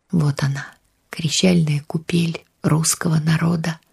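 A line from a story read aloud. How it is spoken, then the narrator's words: Whispered, old woman. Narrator (Russian): шептала бабушка Вера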